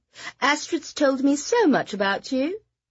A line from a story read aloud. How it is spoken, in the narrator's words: she said in a lilting British accent